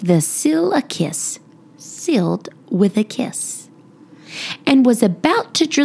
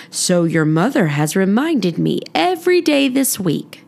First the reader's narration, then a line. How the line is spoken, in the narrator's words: he said with a chuckle